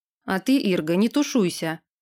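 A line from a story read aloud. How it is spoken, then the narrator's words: Encouraging yet angry. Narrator (Russian): подбодрил ее лорд, зло сощурив глаза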